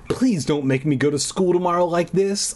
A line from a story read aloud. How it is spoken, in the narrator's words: I pleaded